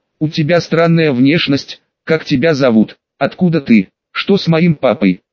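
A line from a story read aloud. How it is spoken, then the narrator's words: Rapid barrage of questions. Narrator (Russian): Начала закидывать она вопросами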